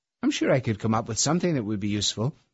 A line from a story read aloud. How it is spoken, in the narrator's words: I said